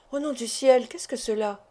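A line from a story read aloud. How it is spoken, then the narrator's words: Low voice. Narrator (French): me demanda-t-il à voix basse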